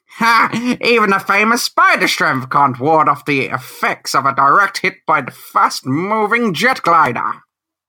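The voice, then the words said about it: Performed character narrator voice. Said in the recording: “do the voice? ... That's perfect.”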